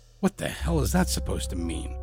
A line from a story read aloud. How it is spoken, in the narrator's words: muttered